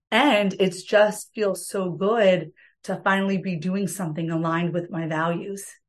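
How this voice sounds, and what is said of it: Raspy voice, New Jersey accent. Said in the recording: “my raspy New Jersey voice”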